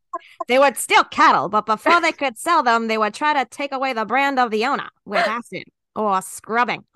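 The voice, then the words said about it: Put-on transatlantic accent. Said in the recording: “I'm going to just do this in trans. I'm not even doing this in Jimmy voice. ... transatlantic.”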